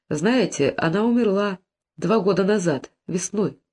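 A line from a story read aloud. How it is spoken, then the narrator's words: Sad postman. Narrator (Russian): печально проговорил почтальон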